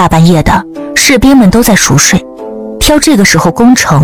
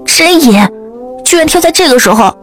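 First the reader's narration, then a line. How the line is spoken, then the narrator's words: Indignant shout. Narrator (Chinese): 于小李愤愤喊道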